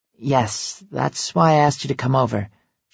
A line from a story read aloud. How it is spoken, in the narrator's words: she sighs